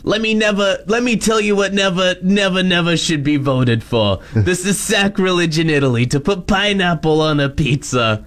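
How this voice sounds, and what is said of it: Stereotypical New York accent. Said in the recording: “I just read them in, like, the most stereotypical New York accent.”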